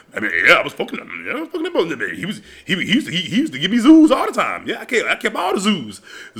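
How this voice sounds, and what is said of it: Imitated funny, distinctive male voice. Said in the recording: “my uncle got a funny voice. All the men in my family have a really distinct voice.”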